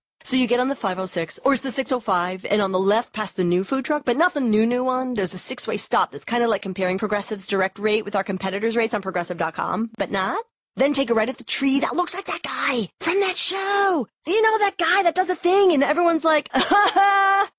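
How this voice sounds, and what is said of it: Imitates a rambling bad direction-giver. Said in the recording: “my impression of someone who is terrible at giving directions”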